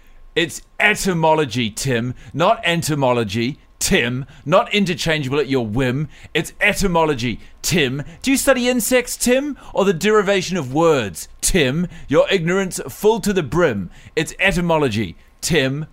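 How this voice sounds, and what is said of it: Bristol accent, barely contained anger. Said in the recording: “this guy comes from uh, Bristol in the UK ... so I'm going to give him an accent to be read with barely contained anger. The word Tim spat out like a sour grape.”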